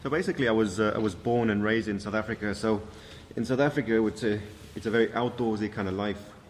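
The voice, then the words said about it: South African accent. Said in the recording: “by the accent people will tell you, not a dub or from Ireland ... your background from South Africa”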